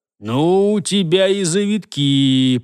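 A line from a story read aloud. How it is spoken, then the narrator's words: Tracker's drawl. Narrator (Russian): протянул следопыт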